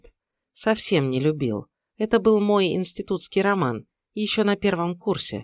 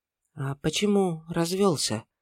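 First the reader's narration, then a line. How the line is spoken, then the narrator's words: Quiet, awkward question. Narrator (Russian): спросила она тихо, будто ей ужасно неловко было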